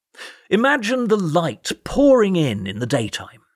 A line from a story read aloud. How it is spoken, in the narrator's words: he boomed